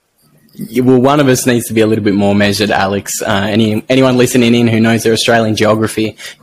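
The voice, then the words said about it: Strong broad Australian accent. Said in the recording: “accent kills me. ... You sound like you're fucking... The Matters Bogan. ... It's terrible. ... my accent is so strong”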